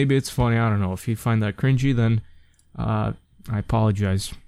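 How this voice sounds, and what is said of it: Usual voice. Nothing is said of it.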